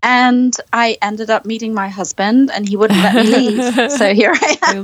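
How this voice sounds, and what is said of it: Charming foreign accent. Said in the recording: “your accent is so charming”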